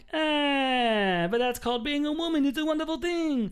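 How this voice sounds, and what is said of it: Put-on accent. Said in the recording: “your accent.”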